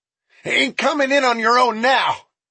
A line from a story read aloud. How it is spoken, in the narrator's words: Jefferson yelled